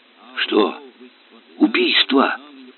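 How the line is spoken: Ominous whisper. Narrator (Russian): зловещим шепотом спросил он старика

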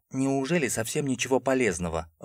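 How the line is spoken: Timid, trying to sound firm. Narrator (Russian): робко спросил, стараясь придать голосу хоть каплю твердости, а интонации уверенности

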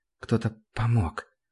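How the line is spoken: Whisper. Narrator (Russian): прошептал

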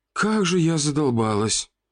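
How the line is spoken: Exhausted groan. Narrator (Russian): Простонала женщина

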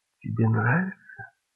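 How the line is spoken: Quiet question. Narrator (Russian): Спросила тихо

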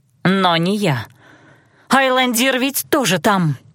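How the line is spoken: Pleading exclamation. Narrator (Russian): воскликнула я, на сей раз готовая умолять о помощи

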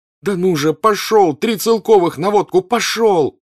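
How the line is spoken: Shouting. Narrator (Russian): закричал Ростов

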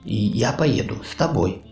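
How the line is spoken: Quiet. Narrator (Russian): сказал он тихо

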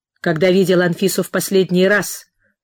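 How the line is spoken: Curt question. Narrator (Russian): отрывисто спросил он

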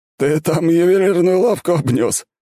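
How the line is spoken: Old man's smirk. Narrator (Russian): хмыкнул старик

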